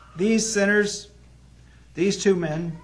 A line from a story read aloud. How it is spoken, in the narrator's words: they cried out